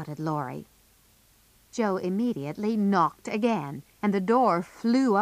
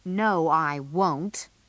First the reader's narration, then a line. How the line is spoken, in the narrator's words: said Laurie angrily